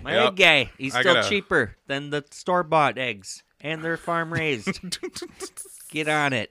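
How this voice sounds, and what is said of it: Put-on Yooper accent. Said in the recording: “You came up with the Uper accent there.”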